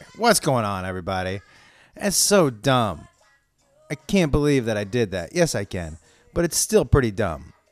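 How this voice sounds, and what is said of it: Hoarse, strained voice. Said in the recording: “I'm losing my voice a little bit.”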